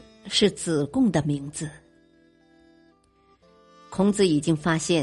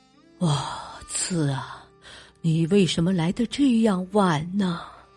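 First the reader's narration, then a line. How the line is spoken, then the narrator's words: Sorrowful sigh. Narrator (Chinese): 他见了子贡更加伤心，叹息着说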